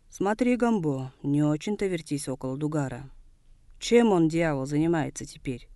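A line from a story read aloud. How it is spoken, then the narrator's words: Displeased yet curious question. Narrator (Russian): Недовольным тоном, но все же не без интереса спросил Тосато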